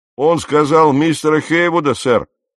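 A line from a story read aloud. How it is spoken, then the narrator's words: Sailor shouting. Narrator (Russian): крикнул кто-то из матросов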